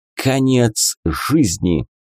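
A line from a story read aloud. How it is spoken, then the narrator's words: Breathed out. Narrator (Russian): выдохнул он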